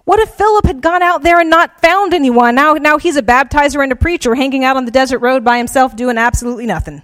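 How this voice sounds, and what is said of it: South Georgia Southern US accent. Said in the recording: “I'm from South Georgia. my accent”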